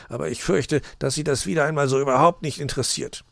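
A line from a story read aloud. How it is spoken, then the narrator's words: Grumbled. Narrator (German): brummte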